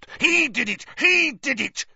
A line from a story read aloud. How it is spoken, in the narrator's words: Filch spat, his pouchy face purpling